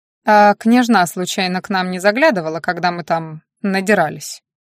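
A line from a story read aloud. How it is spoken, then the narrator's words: Snorting grunt. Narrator (Russian): Эрик хмыкнул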